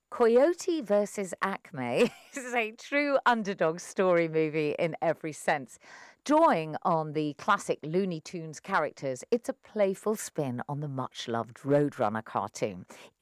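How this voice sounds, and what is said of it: English accent. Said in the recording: “Shall I carry on doing it in my English accent?”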